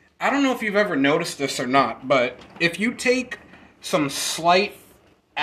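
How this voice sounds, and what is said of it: Usual voice. Nothing is said of it.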